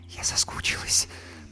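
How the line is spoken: Whispered. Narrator (Russian): прошептала Юлька

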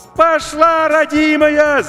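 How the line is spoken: Deafening shout over radio. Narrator (Russian): закричал Максим, оглушая радиоканал

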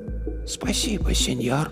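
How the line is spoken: Whisper. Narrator (Russian): прошептала она

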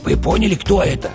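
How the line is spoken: Whispered question. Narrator (Russian): шепотом спросил бык-тупогуб

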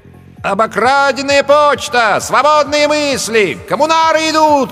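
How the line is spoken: Shouting. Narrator (Russian): кричал он

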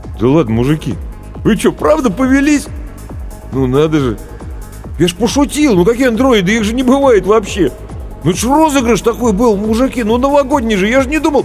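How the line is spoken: Confused babbling. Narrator (Russian): продолжал растерянно лопотать

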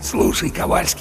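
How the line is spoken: Conspiratorial whisper in ear. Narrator (Russian): заговорщически прошептал в самое ухо третьего сержанта Чарли

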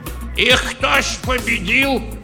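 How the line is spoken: Old man shouting. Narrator (Russian): крикнул из рядов дед Тарас

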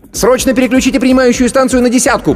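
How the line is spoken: Shouting. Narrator (Russian): крикнул Пухольский

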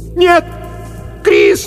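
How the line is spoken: Screaming into darkness. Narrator (Russian): закричала она в темноту позади себя

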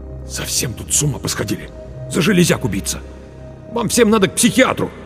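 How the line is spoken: Through gritted teeth. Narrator (Russian): Марк процедил сквозь зубы

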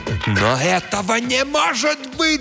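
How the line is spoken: Shouted. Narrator (Russian): закричал Джомфри

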